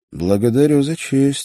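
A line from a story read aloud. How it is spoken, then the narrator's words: Heavy sigh. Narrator (Russian): сказал Петров десятый, тяжело вздохнув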